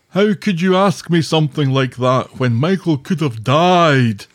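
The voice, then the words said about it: Impression of a character's voice. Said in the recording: “That was a good Ed impersonation.”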